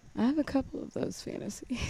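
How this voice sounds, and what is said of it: Whispering. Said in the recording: “You're whispering. Why are you whispering?”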